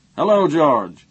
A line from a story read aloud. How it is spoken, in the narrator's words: boomed from within